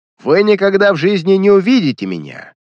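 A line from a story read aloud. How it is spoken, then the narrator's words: Angry shout. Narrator (Russian): злобно крикнул Баглый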